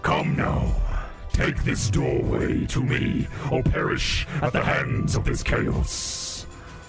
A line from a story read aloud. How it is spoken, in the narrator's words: booms at you through the doorway and says